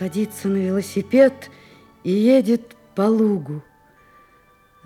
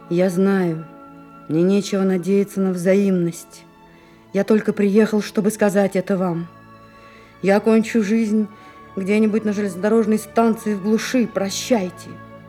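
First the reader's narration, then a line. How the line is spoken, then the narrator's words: Dull, hollow voice. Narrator (Russian): Алёша говорит глухим голосом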